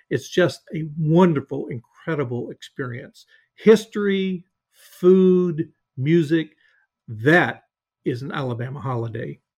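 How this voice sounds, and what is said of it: Sweet Southern Alabama accent. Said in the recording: “your wonderful, sweet Alabama accent”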